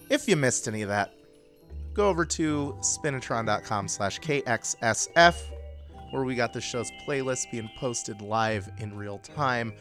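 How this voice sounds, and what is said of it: Hoarse voice. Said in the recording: “my voice is a little hoarse from a cold that I am dealing with”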